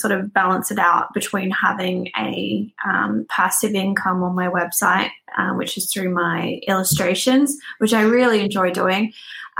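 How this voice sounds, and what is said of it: Australian English accent. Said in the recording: “that's not a Belfast accent ... So I am from Australia”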